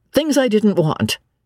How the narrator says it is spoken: he said crossly

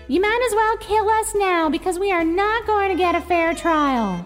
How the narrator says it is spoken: Susan shouted

